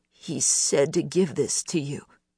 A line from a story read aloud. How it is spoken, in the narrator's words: Choking back tears, she managed